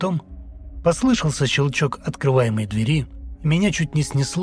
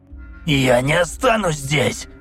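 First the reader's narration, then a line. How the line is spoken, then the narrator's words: Shouting. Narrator (Russian): Закричал я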